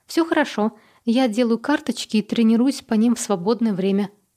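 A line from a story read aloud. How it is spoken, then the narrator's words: Plain. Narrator (Russian): ответила Ева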